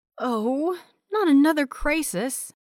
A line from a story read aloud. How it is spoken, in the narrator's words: Willow sighed